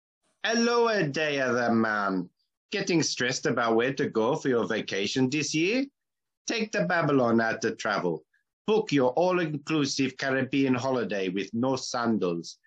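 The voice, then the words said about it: Put-on Jamaican accent, not very good. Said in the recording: “I'm told I've got to do it in a Jamaican accent. This is going to be bad”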